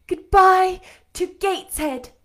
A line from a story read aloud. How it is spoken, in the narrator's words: cried I